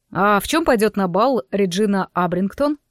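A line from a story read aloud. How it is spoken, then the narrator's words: Plain question. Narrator (Russian): спросил он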